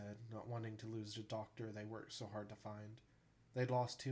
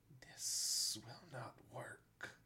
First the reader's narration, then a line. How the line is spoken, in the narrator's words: a voice hissed